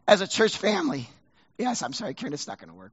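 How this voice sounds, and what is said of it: Strained, failing voice. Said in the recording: “I'm about to lose my voice here”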